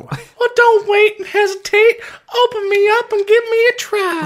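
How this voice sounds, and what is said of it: Silly snack-character voice. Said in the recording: “I'm doing this voice because this guy's doing this voice.”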